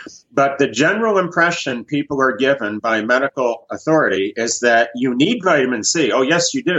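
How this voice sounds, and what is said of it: Usual voice. Nothing is said of it.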